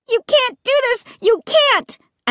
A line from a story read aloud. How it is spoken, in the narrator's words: I shrieked